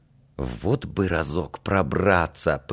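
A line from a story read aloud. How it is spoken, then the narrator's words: Whisper. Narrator (Russian): почему-то шепотом проговорил Алька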